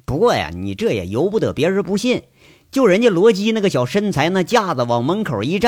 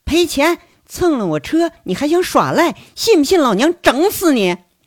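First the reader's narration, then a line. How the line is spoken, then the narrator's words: High, cold voice. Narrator (Chinese): 声音很高，冷森森的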